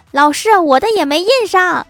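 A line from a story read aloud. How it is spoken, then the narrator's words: Shouting boy. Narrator (Chinese): 另外一个男生也大喊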